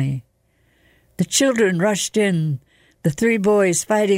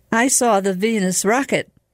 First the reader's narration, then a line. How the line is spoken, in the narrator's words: cried Paolo